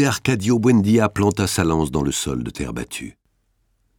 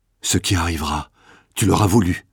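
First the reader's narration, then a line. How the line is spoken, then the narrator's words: Murmured. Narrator (French): murmura-t-elle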